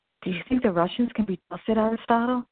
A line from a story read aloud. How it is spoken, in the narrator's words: one of the teachers asked nervously